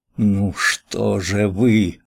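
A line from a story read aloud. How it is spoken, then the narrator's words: Defiant reproachful moan. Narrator (Russian): простонала она почти с вызовом, с нескрываемым упреком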